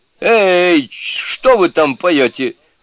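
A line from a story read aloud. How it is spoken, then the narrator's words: Shouted. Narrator (Russian): крикнул Джубадзе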